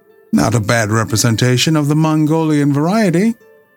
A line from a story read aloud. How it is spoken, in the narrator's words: he exclaimed